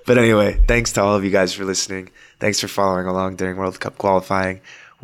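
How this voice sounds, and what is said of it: Worn-out, exhausted-sounding voice. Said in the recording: “falling apart, as you can hear from his voice.”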